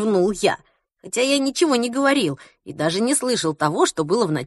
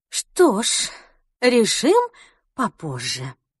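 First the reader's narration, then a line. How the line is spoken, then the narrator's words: Sighing. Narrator (Russian): вздохнула Ульрика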